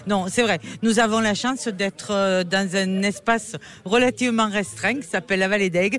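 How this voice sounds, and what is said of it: Regional French accent. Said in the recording (French): “notre accent, vous voyez, il vous donne du plaisir à écouter”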